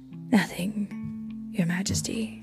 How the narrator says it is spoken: the tears in his eyes … said softly

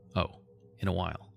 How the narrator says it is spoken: he answered, his tone calm and even

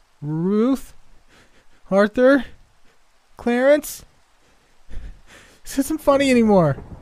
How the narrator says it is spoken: Shakily, called out

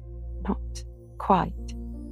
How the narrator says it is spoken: stammered Amy

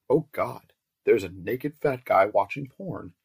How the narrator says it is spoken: I exclaimed

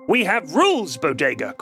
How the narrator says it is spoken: Krem spat

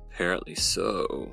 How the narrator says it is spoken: murmured

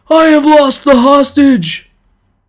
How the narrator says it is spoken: The man who had lost him cried out in a loud voice

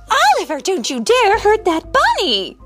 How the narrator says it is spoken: Miss Tilly cried

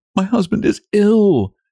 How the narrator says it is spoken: Nellie continued, restraining her sobs

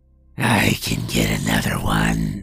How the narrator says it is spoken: said, in a voice that was so raspy and gravelly that it was almost distorted

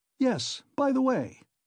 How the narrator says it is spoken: he cried, seemingly suddenly delighted

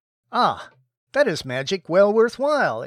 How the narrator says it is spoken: exclaimed Ozma, well pleased

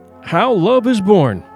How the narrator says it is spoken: said Alehin

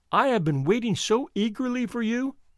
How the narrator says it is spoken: she cried

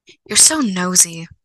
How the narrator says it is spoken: Reagan gasped

